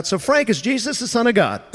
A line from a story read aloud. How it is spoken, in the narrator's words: Pastor Dale, in my backswing, blurts out